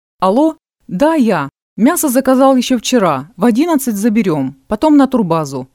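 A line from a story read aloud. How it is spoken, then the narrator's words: Loud phone talk. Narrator (Russian): громко говорил поэт в трубку выключенного телефона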